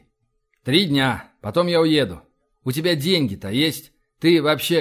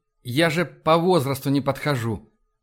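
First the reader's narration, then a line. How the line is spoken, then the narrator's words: Timid remark. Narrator (Russian): робко заметил Энди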